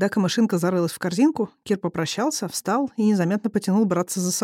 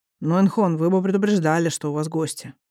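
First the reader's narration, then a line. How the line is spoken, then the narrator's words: Grumbling. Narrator (Russian): поворчал один из стражников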